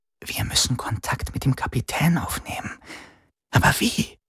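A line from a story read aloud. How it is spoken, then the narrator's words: Whispered. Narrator (German): flüsterte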